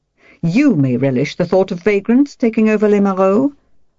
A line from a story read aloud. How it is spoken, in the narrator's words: told her sharply